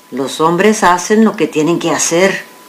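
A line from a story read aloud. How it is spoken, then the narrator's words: Plain. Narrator (Spanish): contestó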